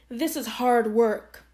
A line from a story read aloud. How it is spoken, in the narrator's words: Anansi said